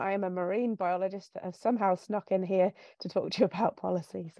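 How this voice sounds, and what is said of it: English accent. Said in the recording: “So I went to university over in England. You can hear from my voice, I'm from over in that direction.”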